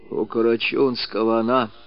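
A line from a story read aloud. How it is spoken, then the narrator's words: Whisper. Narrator (Russian): прошептал, наконец, Кожин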